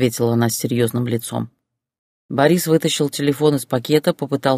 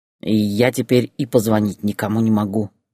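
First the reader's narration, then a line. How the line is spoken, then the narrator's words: Said angrily. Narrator (Russian): сердито сказал он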